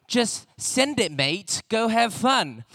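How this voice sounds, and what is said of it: Put-on Australian accent. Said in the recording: “I've been working on my Australian accent. Pretty good, right?”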